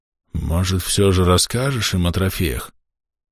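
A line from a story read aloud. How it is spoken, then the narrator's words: Quiet whisper. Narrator (Russian): Тихо прошептал араб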